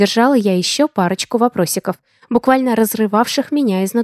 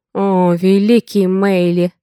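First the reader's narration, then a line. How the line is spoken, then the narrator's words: Breathless exclamation. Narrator (Russian): выдохнул Хагейн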